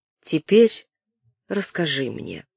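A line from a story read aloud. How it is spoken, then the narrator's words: Calm. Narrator (Russian): сказал он спокойно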